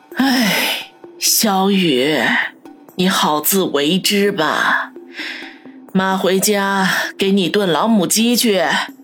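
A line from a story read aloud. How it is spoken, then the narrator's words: Sighing mother. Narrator (Chinese): 母亲陈兰芳 叹了口气，说道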